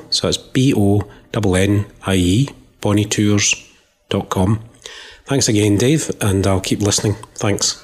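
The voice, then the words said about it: Genuine strong Scottish accent. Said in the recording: “that is not a Shrek Mike Myers. That is serious. That is the real deal there. What an accent.”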